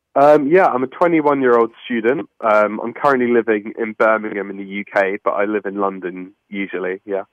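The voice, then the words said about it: UK accent. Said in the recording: “all the way over from the UK ... It sounds so much better when you say it with your accent.”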